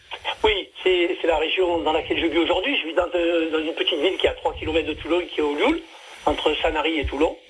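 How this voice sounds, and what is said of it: Slight Marseille French accent. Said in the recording (French): “on entend le petit accent... Le petit accent de Marseille.”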